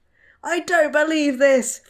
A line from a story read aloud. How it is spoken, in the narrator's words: Frank shouted